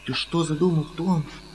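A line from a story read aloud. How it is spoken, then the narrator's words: Frightened speech. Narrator (Russian): говорила Мадлен, испуганно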